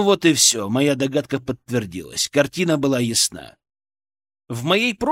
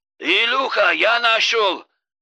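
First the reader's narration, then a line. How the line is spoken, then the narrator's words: Shouting into phone. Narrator (Russian): кричал он в трубку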